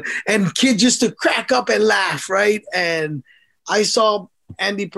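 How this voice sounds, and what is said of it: Usual voice. Nothing is said of it.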